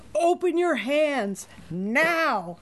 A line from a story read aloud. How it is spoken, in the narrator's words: shouted the infuriated nun